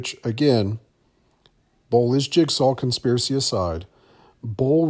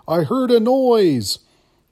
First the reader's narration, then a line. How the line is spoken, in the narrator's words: he replies by yelling